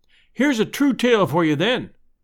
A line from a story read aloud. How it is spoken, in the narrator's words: I cried